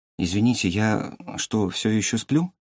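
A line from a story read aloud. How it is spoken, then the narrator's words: Quiet question. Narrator (Russian): тихо спросил Чигён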